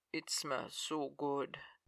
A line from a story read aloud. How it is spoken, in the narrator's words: Zhenya said, his voice low and rough